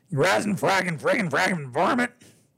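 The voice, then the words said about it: Cartoon cowboy character voice. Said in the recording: “my Yosemite Sam impersonation”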